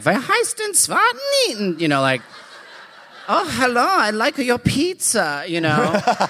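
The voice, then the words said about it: Put-on German accent. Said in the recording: “trying my German accent out ... very German.”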